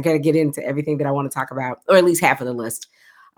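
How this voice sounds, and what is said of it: Speaking very fast. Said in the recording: “I do feel like I'm talking really, really fast today. I've had coffee as I usually do ... I'm talking really fast.”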